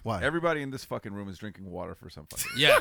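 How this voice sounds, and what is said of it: Hoarse, nearly lost voice. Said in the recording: “my voice is gone... We're horse, bro... We're fucking recuperating, bro, from the event.”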